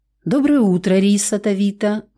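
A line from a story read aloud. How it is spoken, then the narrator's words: Growling undertone. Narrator (Russian): в голосе остались рычащие нотки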